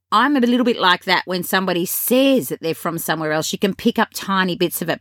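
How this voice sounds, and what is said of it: Australian English accent. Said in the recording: “my English Australian accent”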